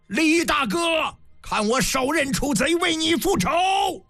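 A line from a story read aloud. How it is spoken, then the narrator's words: Loud battle cry. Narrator (Chinese): 营状一声大喝，仰天大叫一声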